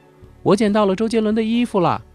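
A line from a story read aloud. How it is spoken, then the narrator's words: Distant scream. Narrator (Chinese): 不远处响起一阵尖叫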